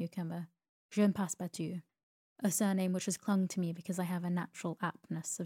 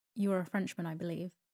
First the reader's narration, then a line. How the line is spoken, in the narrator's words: asked Phileas Fogg